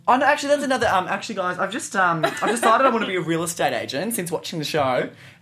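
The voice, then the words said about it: Australian accent. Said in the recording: “from your accent, you're from Australia”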